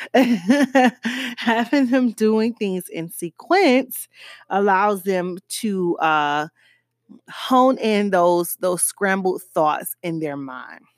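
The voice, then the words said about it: Miami accent. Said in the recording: “this is my Miami accent”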